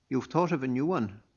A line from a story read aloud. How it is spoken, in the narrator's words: Mirko asked him